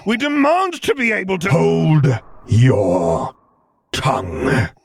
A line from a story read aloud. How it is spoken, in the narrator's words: He growled out